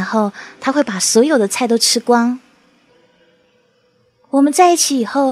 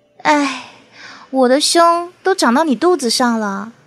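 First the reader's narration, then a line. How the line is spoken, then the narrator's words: Sighing. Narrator (Chinese): 我总会感叹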